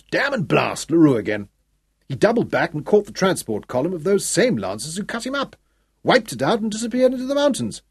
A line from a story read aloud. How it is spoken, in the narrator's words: he snapped